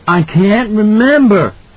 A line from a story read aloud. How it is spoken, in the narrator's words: Danny cried out, agonized